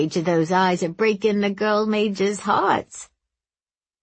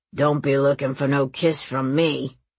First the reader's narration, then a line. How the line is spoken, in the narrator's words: growled the man with the sprained ankle